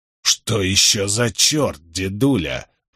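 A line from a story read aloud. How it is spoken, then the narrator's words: Said through teeth. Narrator (Russian): процедил Джеральд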